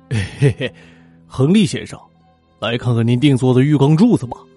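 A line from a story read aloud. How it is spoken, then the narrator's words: Insincere smiling greeting. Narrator (Chinese): 吉姆皮笑肉不笑的打招呼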